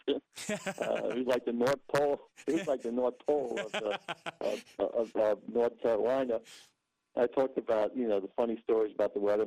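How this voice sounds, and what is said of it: New York accent. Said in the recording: “New York native ... You can always tell that accent has not left him all these years later”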